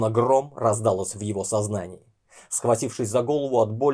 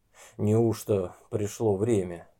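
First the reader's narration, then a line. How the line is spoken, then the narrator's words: Hoarse wheeze after swallowing. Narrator (Russian): сглотнул слюну и просипел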